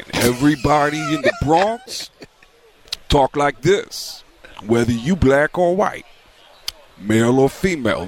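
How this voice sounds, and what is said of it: Tracy Morgan impression. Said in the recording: “everybody in the Bronx sounds like Tracy Morgan ... that's Tracy”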